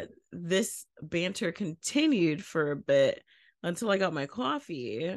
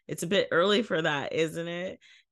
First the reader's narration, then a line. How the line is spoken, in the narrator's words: caught off guard by this, and while laughing, said